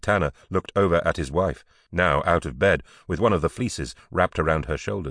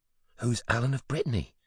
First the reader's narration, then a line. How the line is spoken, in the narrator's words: whispered